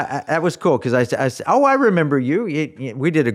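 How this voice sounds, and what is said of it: Usual voice. Nothing is said of it.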